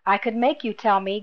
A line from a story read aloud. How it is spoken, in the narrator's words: Grammel growled